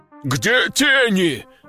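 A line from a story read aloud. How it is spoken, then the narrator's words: Growled. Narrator (Russian): рыкнул адвокат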